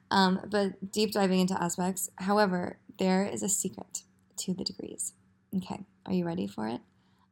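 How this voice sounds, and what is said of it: Low, sleepy voice. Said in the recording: “I can't really talk today. I just woke up from a nap. So that's why my voice is nice and low.”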